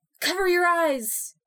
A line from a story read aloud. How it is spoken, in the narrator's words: She yelled